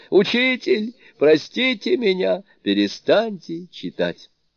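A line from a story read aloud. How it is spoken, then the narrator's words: Helpless shout. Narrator (Russian): он совершенно беспомощный закричал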